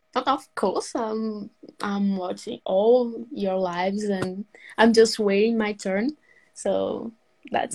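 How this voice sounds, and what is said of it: Slight British-tinged accent. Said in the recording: “I could see a hint of Britishness in your accent there when you say, "Of course."”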